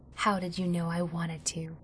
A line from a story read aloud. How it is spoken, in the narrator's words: she whispered